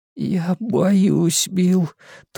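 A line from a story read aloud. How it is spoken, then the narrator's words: Thin-voiced whisper. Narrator (Russian): тонким голосом прошептал Эдди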